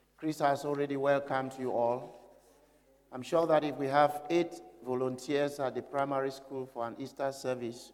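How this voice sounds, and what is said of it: Slightly sick, under-the-weather voice. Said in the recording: “You can hear from my voice that I'm a little bit under the weather.”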